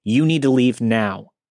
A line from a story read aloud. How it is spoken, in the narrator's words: firmly said